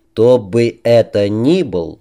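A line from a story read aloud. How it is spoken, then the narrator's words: Slow speech. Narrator (Russian): медленно проговорил Кинг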